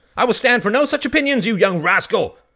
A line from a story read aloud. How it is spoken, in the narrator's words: cried the voice